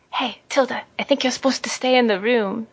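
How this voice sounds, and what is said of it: Whispering. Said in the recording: “whisper”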